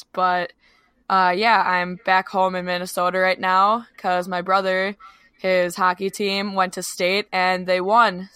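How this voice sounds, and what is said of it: Raspy voice. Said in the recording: “That would kind of explain my raspy voice, so I'm sorry about that in advance.”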